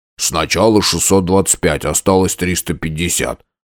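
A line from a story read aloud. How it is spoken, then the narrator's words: Grumbling. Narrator (Russian): пробурчал Винк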